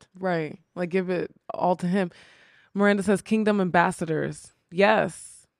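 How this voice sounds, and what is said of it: Slightly crackly voice. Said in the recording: “my voice is a little crackly”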